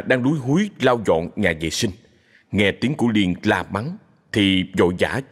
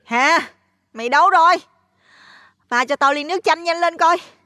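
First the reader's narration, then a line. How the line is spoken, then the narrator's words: Irritable, loud yelling. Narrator (Vietnamese): Liên lại quay về với bản tính cáu cắt, cô hét ầm ĩ lên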